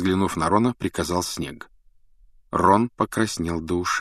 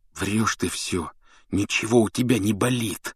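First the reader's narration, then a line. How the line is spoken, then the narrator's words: Hissing. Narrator (Russian): прошипел он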